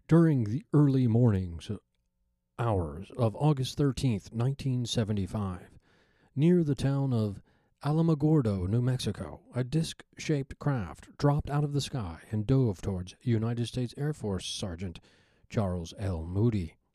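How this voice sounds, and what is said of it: Robert Stack investigative narrator impression. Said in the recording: “like it's an investigative report, like an old episode of Hard Copy? ... we don't have to go all Robert Stack. That was my best Robert Stack impersonation. Not the best”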